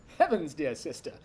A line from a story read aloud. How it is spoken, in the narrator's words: Michael laughed, breathing hard from his run